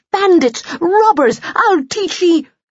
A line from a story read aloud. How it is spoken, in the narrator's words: She broke off with a screech